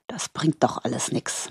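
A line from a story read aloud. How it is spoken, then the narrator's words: Murmur. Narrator (German): murmelte er schließlich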